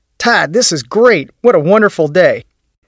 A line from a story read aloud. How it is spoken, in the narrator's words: People called out